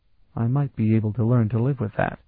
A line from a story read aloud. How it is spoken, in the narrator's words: Elana murmured